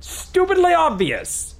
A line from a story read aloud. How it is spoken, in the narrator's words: cried Clint